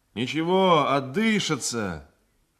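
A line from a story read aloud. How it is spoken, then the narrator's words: Shouted. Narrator (Russian): крикнул мне матрос Поликанов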